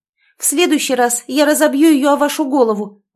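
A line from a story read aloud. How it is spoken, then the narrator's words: Furious exclamation. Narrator (Russian): воскликнула в бешенстве она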